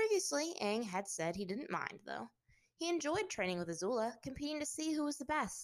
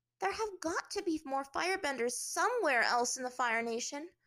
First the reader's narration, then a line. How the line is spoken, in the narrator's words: Azula said impatiently